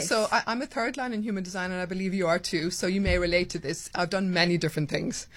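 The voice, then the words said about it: Irish accent, southwest Ireland. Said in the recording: “your accent is just giving me all the... Where am I? ... So I grew up in Ireland, the southwest of Ireland.”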